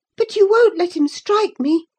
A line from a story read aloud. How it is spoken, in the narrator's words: she cried